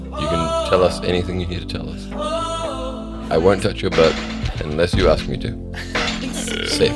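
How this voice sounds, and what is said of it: Smooth radio-announcer voice. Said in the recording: “He does have a radio voice. He talks a lot of crap, but it sounds good.”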